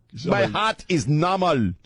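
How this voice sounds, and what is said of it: Imitated foreign accent of another person. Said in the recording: “the guy, my cardiologist's accent ... my imitation of my cardiologist ... Sound like that the psychic hotline lady. Was it Miss Cleo?”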